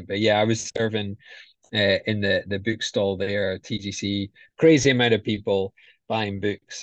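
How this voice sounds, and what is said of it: Scottish accent. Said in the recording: “I'm the Scottish guy. So people recognize the accent.”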